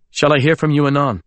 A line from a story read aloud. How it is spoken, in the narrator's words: I said sharply